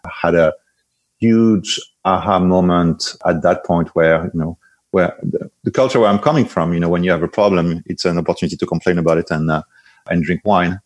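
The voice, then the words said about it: French accent. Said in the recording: “My accent will betray very soon already. Originally from France”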